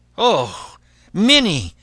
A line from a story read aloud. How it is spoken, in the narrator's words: cried the man in fright